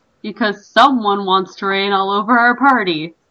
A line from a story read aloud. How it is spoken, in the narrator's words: exclaimed Asena